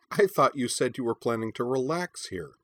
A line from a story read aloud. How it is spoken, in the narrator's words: said Corwin's mother Scold with a laugh